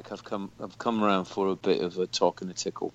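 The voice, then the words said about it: Fake sexy British accent. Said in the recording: “my fake sexy British accent”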